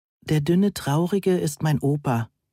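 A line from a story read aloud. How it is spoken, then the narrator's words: Angelic voice. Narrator (German): antwortete Püppi mit engelsgleicher Stimme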